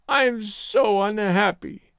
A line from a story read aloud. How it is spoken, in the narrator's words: wailed